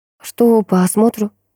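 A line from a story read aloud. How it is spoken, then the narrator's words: Sighing investigator. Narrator (Russian): криминалист вздохнул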